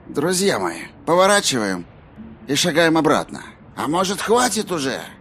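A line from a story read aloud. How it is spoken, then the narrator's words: Grumbling man. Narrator (Russian): Пробурчал человек с часами на руке, согласно списку имен Олли Анг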